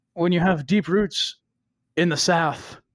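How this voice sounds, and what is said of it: Southern-accented imitation of another person's voice. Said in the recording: “the only time I have ever heard a Southern accent come out of Johnny Depp's ... That's like, a great Johnny Depp”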